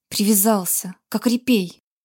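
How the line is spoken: Hissing. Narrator (Russian): прошипел Грег

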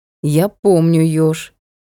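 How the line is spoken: Cold. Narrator (Russian): холодно произнесло отражение

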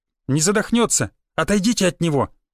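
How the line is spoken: Sharp shout. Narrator (Russian): снова прикрикнул я на всех

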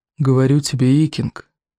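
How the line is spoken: Quavering cajoling voice. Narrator (Russian): увещевал Один Клык дребезжащим голосом

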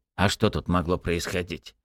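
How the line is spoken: Snorting. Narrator (Russian): фыркнул Микульчин

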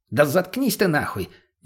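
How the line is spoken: Exasperated snapping shout. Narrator (Russian): не выдержал мутный и прикрикнул на него

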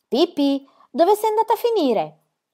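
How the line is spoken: Worried exclamation. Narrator (Italian): esclamò impensierito

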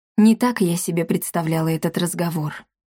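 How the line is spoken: Quiet. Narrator (Russian): тихо произнесла она

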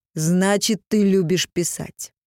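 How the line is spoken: Stern question. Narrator (Russian): Йотун строго спросил

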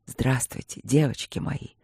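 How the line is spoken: Passionate muffled whisper. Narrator (Russian): горячо прошептал маг, вжимаясь лицом в ложбинку

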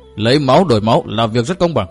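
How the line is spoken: Loud laughing. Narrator (Vietnamese): Lạc Tử Khư cười lớn nói

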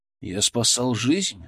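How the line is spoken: Even voice. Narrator (Russian): сказал я ровным голосом

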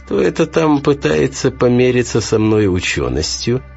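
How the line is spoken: Sly mocking tone. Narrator (Russian): ехидно прищурился

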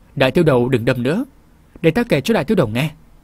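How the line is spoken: Hurried, placating. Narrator (Vietnamese): Vân Nhi, nàng vội xua tay lia lịa nói

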